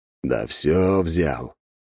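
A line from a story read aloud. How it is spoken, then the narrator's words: Upset grumbling. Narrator (Russian): пробурчал Мор, расстроенный тем, что я не поддержал его инициативу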